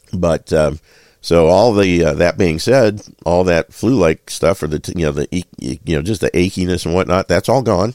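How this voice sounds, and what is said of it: Rough, hoarse, congested voice. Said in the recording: “my sinuses are getting plugged up a little bit, and my voice is a little rougher, coarser, harsh. I don't know, hoarse.”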